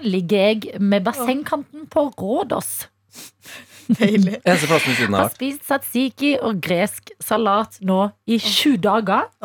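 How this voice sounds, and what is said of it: Put-on Haugesund western Norwegian dialect. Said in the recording (Norwegian): “får lese på den beste haugesundsken han kan ... du blir veldig så sånn nusselig når du leser på den dialekten. Du blir veldig søt ... man er søtere på vestlandsdialekt”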